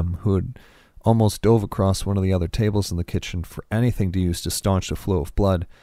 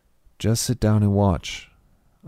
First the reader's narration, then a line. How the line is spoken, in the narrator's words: I said calmly